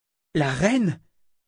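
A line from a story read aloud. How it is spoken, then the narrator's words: Breathy whisper. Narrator (French): souffla Callan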